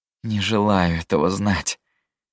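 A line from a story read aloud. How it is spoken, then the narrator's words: Groaning. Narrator (Russian): простонал он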